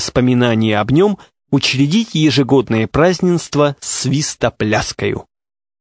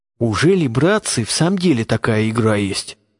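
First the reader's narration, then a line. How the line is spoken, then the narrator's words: Very quiet murmuring. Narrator (Russian): Говорили они промеж себя, но так тихо, что даже Бородавкин, и тот ничего не расслышал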